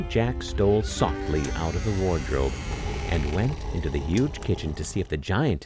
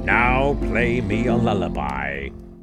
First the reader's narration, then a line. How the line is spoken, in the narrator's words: roared the giant